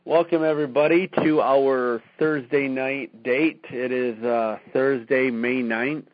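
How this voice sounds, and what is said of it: Hoarse, strained voice. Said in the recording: “Excuse my hoarse voice. I was at Cedar Point Amusement Park all day today screaming on a roller coaster, so I'm losing my voice a little bit.”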